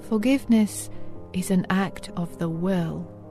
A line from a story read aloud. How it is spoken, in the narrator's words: Corrie quietly said